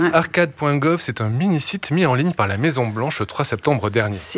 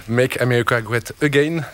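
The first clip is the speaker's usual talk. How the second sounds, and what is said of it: Put-on foreign accent. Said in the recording (French): “appréciez l'accent.”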